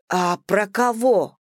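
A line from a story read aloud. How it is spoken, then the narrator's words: Barely restrained outburst. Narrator (Russian): едва сдерживаясь, выкрикнула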